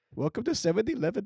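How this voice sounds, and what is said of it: Put-on Indian accent. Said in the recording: “I don't do accents well. I can do Indian though.”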